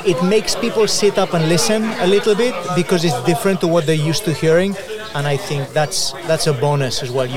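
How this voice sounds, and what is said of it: Spanish-accented English. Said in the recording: “your Spanish accent”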